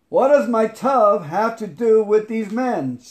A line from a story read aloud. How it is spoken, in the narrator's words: Feeling confused and impatient, I yelled at God